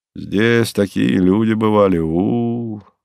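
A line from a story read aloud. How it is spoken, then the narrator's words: Drawn-out admiring tone. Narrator (Russian): восторженно уважительно протянул он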